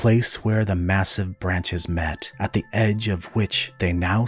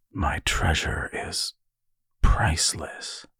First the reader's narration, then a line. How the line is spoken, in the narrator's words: Ven whispered in reverential recognition